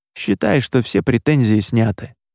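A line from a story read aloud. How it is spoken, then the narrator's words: Quiet speech. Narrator (Russian): негромко произнес он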